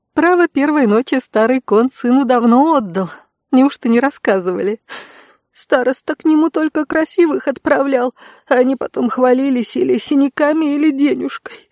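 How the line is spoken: Sobbing. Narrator (Russian): всхлипывала Светика

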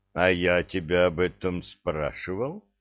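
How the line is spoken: Flat colorless question. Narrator (Russian): бесцветным голосом поинтересовался Кедр

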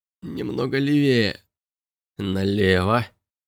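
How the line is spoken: Muttering. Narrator (Russian): пробормотал Робби

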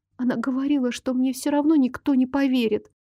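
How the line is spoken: Miserable whisper. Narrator (Russian): продолжила шептать несчастная

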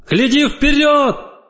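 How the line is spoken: Shout. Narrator (Russian): крикнула

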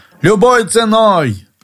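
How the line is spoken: Shouted. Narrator (Russian): Когда ты требовал, чтобы я позволил тебе спасти прелесть, ты кричал

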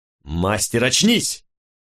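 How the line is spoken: Barked shout. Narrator (Russian): рявкнул я на Джанжи

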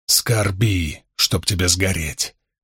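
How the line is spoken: Growling. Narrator (Russian): прорычал Ранд

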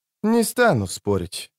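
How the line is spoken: Sighing. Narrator (Russian): вздохнула чародейка

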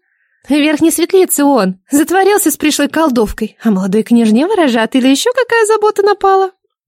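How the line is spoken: Unkind giggle. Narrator (Russian): Чернавка хихикнула недобро

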